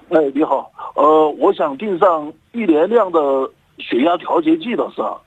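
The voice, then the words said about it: Southern Chinese accent. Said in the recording (Chinese): “口音是南方口音”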